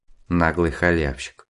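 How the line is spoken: Muttered under breath. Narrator (Russian): пробормотал в полголоса Десяткин

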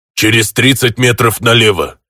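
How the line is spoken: Orc booming close in ear. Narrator (Russian): прогудел мне в ухо орк

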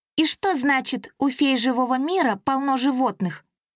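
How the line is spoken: Hissed after slight delay. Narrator (Russian): С легким запозданием зашипела Ириска

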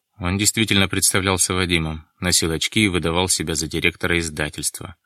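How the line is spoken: Gloomy. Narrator (Russian): мрачно сообщил Дронго

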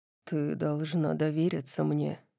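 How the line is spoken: Soft. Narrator (Russian): мягко сказал он

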